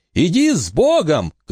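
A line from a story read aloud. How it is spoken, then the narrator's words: Shouted. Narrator (Russian): крикнул Уэйн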